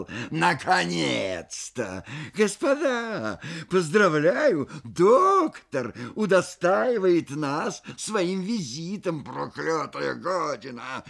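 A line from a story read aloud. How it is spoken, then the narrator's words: Shrill squeal. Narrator (Russian): взвизгнул он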